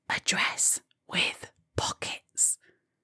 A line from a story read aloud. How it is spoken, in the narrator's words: whispered